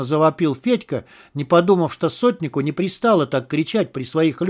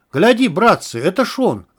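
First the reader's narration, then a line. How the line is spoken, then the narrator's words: Stunned exclamation. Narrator (Russian): ошалело воскликнул один из дворян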